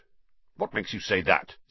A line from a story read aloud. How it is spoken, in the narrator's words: said Wood testily